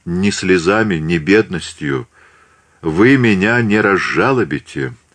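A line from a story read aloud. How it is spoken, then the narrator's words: Said dryly. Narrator (Russian): сухо сказала Екатерина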